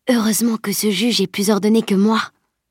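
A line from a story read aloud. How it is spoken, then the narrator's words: Breathy whisper. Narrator (French): souffla-t-elle à Salim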